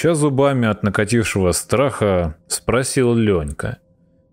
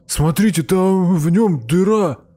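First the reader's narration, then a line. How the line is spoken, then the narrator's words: Astonished yell. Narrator (Russian): не веря своим глазам, завопил Жека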